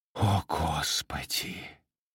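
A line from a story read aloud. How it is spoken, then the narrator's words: Whisper. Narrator (Russian): прошептала Эбигейл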